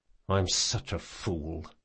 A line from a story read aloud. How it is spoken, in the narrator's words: he muttered